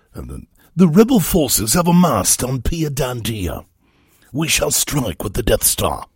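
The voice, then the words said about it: Put-on British accent. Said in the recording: “You have to use a British accent”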